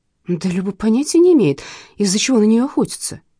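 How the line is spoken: Exclaimed. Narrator (Russian): воскликнула я

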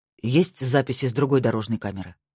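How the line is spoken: Plain. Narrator (Russian): спросил Марк

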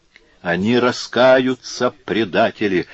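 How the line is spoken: Whispered. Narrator (Russian): шептала она

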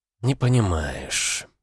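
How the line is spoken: Sighing friend. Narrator (Russian): вздохнула подруга

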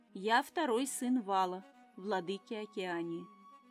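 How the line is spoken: Amphibian, flat even tone. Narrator (Russian): ровным тоном выдал амфибия

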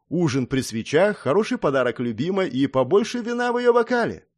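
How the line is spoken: Cheerful reply. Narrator (Russian): бодро ответил я

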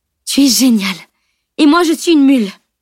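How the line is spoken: Exclaimed. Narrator (French): s'écria-t-elle

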